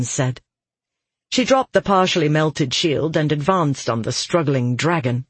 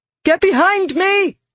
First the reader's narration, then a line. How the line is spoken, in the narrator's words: Alidian shouted